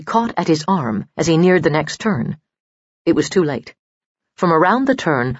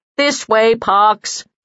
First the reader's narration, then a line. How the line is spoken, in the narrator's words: yelled